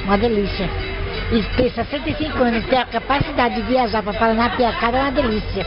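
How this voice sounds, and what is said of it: Pernambuco Brazilian Portuguese accent. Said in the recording (Portuguese): “esse sotaque aí eu tô reconhecendo. Você não é paulista não, nem paulistana, é? ... Recife, Pernambuco ... não perdeu o sotaque”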